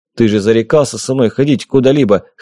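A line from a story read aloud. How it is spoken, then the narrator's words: Wry snort. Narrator (Russian): хмыкнул я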